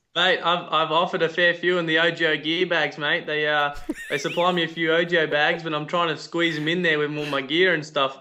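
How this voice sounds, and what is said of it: Australian accent. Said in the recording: “Hopefully, the Australian accent can pull some in for us ... your, your accent only gets you”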